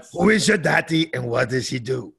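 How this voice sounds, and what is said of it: Austrian accent impression. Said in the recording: “I can do my Arnold... That's a good Austrian accent.”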